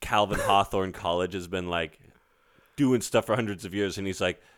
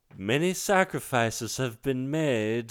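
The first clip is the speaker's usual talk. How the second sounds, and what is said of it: Imitates a movie character's voice. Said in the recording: “Or the more I try to do his impression, I think... Doing like a Klaus impression.”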